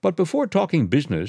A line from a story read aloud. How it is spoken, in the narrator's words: she added brightly